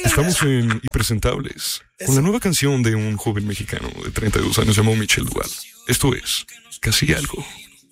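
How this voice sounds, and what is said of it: Radio announcer voice. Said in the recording (Spanish): “voz de locutor de radio”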